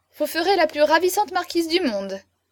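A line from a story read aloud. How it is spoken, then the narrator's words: Exclaimed. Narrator (French): s'écria-t-il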